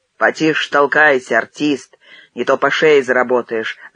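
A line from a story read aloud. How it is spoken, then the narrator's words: Crowd grumbling. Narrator (Russian): заворчали в толпе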